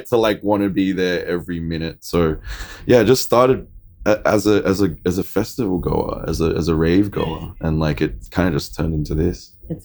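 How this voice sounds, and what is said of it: Australian accent. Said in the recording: “you come from Australia, correct? ... Yes, I do. A little bit of an accent, whatever.”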